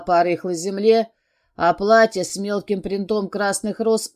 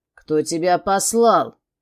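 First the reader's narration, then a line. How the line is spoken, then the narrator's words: Hissing. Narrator (Russian): прошипел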